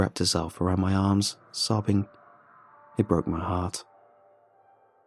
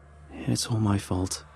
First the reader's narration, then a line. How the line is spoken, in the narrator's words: I sighed